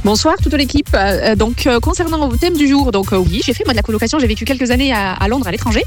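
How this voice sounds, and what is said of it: Sing-song southern French accent. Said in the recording (French): “du sud de la France, qui a son accent chantant”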